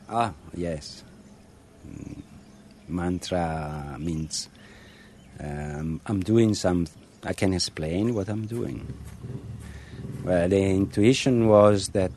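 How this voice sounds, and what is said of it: English with Italian accent. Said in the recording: “English with an Italian accent”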